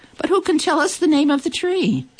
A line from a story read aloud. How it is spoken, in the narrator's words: The animals cried out